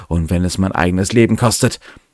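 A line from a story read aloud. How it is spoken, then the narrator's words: Calling out. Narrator (German): rief sie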